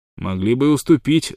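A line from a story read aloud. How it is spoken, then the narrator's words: Spiteful remark. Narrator (Russian): злобно заметил Уайлдвотер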